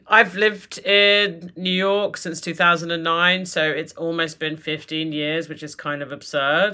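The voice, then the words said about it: British accent with crisp T's. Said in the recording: “for most Americans, I still sound pretty British ... British, I would say ... Normally, I think people have like softened their T's a lot by now, but you still got it.”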